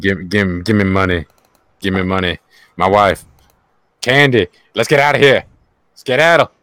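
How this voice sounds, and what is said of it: Imitates another person's voice. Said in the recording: “impersonations”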